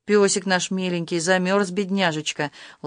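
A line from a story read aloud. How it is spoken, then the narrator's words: Affectionate cooing. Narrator (Russian): Ласково приговаривая, Зина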